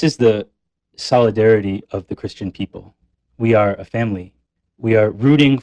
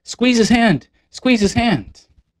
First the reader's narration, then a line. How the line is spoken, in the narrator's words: everybody in the crowd starts to shout